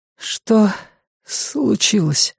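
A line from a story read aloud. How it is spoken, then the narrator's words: Hoarse, weak voice asking. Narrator (Russian): хриплым, ослабевшим голосом спросила Ханна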